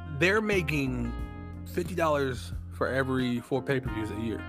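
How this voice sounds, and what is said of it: Texan accent. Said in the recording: “your Texan accent”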